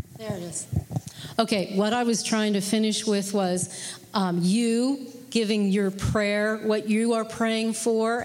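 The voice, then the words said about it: Loud projecting teacher voice. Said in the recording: “I'll just use my teacher voice.”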